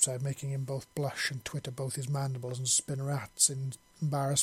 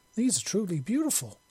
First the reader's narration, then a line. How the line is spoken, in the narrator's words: Zixi said, beaming brightly